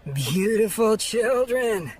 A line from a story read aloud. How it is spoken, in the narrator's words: said the pilot with a laconic drawl and a huge grin